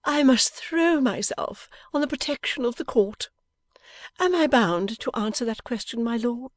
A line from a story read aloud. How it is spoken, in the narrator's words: Lammle, still gaily